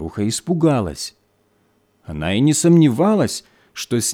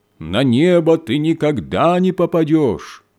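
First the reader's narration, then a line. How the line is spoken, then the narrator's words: Loud shout down chimney. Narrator (Russian): студент, сидящий на крыше, громким голосом прокричал в трубу камина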